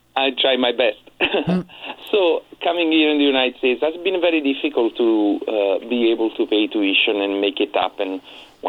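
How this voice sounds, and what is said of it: Italian-accented English. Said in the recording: “moving from Italy without speaking any English ... you have a beautiful accent”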